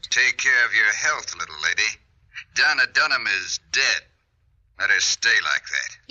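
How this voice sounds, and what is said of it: Eerie ghostly old man's voice. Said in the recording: “old man who talks like a ghost”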